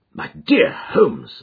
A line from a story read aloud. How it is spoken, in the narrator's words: I exclaimed